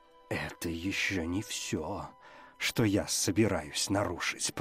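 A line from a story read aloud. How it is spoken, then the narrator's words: Growl. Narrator (Russian): прорычал Моррисон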